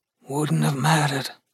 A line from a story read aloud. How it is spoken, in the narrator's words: grumbled Gus, rubbing his face into Melody's chest